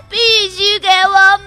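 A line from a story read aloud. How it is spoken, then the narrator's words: Crying while speaking. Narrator (Chinese): 他边哭边说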